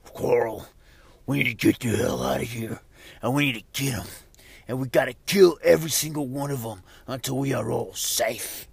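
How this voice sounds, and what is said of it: Poor imitation of a TV character. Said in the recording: “that's a really bad impression of Rick Grimes ... I'm completely butchering it”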